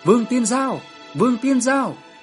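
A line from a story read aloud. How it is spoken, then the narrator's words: Anxious shouting. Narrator (Vietnamese): Tôi và Tôn Kim Nguyên đều vô cùng nôn nóng, mà hét to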